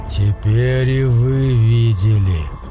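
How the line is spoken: Hoarse mutter. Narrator (Russian): хрипло пробормотал он

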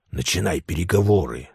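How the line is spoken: Frightened whisper. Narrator (Russian): зашептал он, прячась за мою спину

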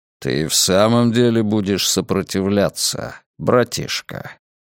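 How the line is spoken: Growled. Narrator (Russian): Он рыкнул

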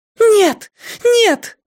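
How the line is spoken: Frantic girl's scream. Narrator (Russian): неистово закричала девушка

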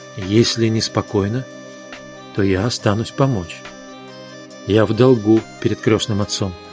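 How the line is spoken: Whispered in Italian. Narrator (Russian): Он прошептал по-итальянски

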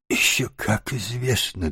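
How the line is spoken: Trembling small voice. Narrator (Russian): дрожащим голоском подтвердил крот

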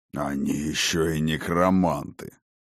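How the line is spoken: Grumbling. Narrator (Russian): проворчал восставший

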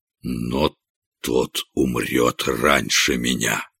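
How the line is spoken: Barely audible, malicious. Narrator (Russian): злобное пламя сверкнуло в глазах короля, и он проговорил еле слышно

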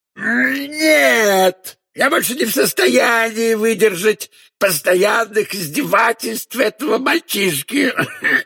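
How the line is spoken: Enraged roar. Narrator (Russian): Взревел Омар Юсуф

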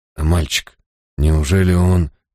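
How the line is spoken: Breathed out. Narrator (Russian): выдохнул я

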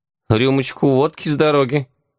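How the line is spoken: Hesitant offer. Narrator (Russian): неуверенно предложил Яга

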